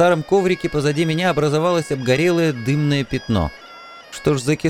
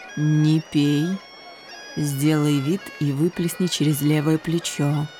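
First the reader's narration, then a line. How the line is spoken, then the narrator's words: Quiet command. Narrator (Russian): Горгулия Таймс тихо приказала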